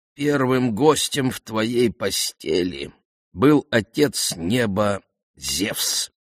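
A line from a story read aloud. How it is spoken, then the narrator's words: Plain. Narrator (Russian): сказал Тиресий Алкмене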